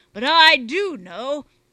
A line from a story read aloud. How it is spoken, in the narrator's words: said Bungy angrily